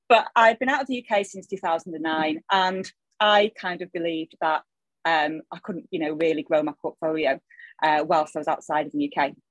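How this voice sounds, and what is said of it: Salford English accent. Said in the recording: “my accent, which is still straight out of Salford”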